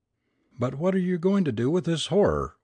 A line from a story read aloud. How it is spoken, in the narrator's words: we cried